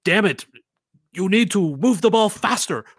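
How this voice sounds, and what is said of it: Put-on foreign accent. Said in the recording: “Was that your Spanish accent? ... Oh, I was thinking it was German.”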